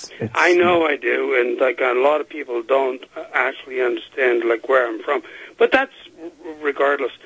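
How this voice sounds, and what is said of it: Unusual accent, sounds somewhat Hispanic. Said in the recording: “You have a funny accent. ... You almost sound like you're Hispanic.”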